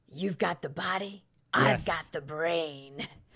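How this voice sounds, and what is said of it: Bad impression of a movie villain. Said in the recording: “I did that very bad impression there”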